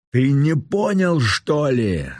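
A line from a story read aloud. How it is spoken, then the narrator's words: Shout. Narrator (Russian): закричал Ренат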